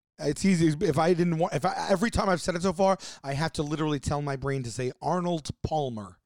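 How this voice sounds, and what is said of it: New York accent. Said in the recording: “my New York upbringing and my accent”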